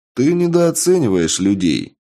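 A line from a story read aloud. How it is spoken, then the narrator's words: Plain reply. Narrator (Russian): ответил я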